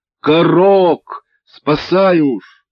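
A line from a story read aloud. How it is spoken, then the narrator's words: Crowd shouting in unison. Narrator (Russian): закричали все люди в один голос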